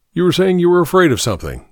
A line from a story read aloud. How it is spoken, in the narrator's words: said Fox